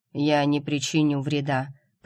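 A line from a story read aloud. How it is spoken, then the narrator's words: Man's deep bass reply. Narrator (Russian): пробасил мужчина в ответ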